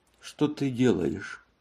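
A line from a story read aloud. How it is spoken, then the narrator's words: Neutral tone. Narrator (Russian): спросила Матильда нейтральным тоном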